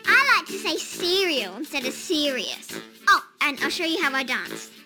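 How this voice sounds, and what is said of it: New Zealand accent. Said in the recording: “you're from NZ originally, and, yeah, listeners can probably pick that up from the accent”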